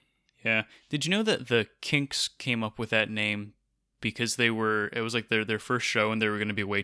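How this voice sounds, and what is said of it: Usual voice. Nothing is said of it.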